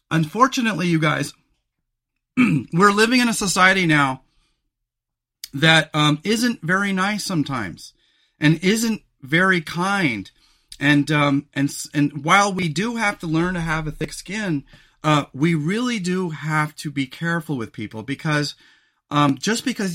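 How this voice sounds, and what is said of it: Strained, failing voice. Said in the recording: “I'm losing my voice.”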